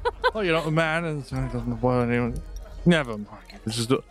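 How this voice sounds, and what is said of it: Usual voice. Nothing is said of it.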